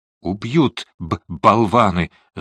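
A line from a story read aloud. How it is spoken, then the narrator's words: Angry, through gritted teeth. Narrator (Russian): зло процедил Фондорин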